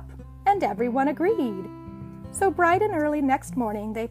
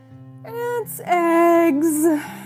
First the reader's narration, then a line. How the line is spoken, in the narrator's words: yawned Turtle